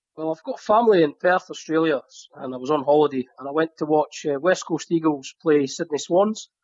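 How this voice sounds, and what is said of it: Scottish accent. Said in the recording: “I do detect that Scottish accent.”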